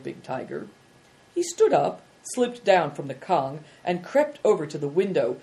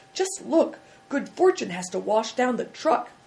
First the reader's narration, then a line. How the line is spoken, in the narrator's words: cried Big Tiger